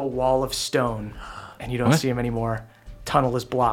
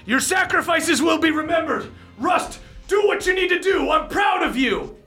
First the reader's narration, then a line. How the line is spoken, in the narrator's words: he yells